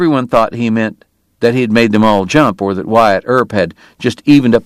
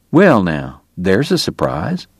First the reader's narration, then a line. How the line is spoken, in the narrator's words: Doc murmured